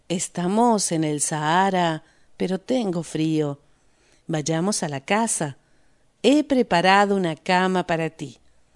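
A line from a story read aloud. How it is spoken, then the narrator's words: Soft whisper. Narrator (Spanish): susurró suavemente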